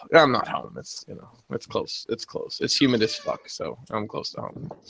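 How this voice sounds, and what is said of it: Southern US accent. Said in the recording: “nobody's complaining about your accent down there”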